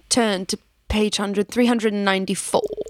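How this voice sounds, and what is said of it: Impression of a fictional character's voice. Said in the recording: “Was that Snape? ... A little Severus Snape. ... that amazing Snape impression”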